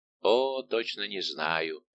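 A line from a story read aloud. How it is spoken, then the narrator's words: Plain. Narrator (Russian): ответил Атос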